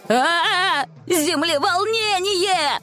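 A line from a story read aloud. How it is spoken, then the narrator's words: Confused shout. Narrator (Russian): Закричал Астер, как всегда, путаясь в словах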